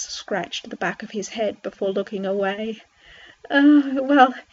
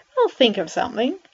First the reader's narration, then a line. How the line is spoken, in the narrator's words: Max replied happily